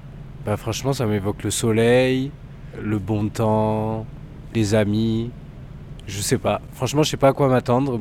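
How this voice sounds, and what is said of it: Slight southern French Marseille accent. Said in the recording (French): “T'as un petit accent, tu viendrais pas du soleil, toi ? ... je suis marseillais”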